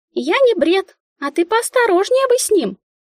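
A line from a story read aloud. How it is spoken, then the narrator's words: Squeaky child's voice. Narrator (Russian): пропищала малявка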